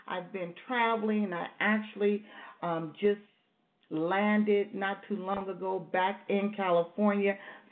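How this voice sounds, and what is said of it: Strained, tired voice. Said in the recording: “you might hear the strain in my voice. ... I am drained.”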